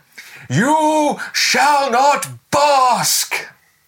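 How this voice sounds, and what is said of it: Imitates Gandalf's voice. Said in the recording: “my best Ian McKellen impression. Gandalf.”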